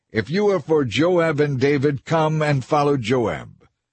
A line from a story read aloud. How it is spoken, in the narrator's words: One of Joab's young officers shouted to Amasa's troops